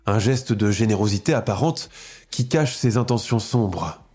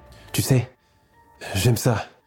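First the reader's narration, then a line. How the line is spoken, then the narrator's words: Sadistic whisper. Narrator (French): lui souffle-t-il, sadique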